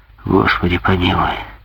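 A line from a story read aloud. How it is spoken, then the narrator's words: Muttered. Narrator (Russian): пробормотал Грингуар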